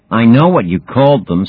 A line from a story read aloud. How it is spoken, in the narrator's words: snapped Demon